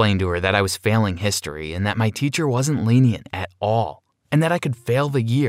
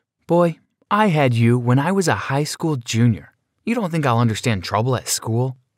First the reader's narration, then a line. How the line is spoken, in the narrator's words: chuckled